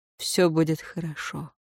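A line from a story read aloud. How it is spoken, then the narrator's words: Said quietly. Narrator (Russian): негромко произнес он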